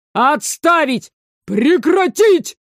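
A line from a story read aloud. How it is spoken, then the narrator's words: Shouting from both sides. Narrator (Russian): Заорали с двух сторон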